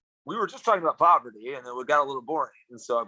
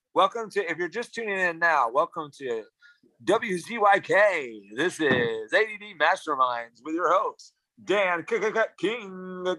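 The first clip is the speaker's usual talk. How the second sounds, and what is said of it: Radio DJ announcer voice. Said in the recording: “I put on my DJ voice.”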